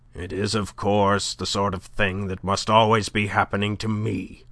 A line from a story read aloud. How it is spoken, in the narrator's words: grumbled to no one in particular